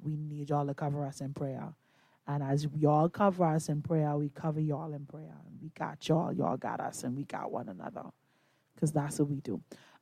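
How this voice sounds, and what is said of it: Strained, nearly lost voice. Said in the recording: “my voice is just about gone”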